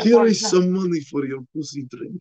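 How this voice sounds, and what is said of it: Put-on Arab accent. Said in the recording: “That's better... I'm doing an, an impersonation Tom Segura, universation impersonation of an Arabic man”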